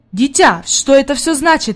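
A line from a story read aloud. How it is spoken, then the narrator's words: Exclaiming. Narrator (Russian): воскликнул господин Сесмон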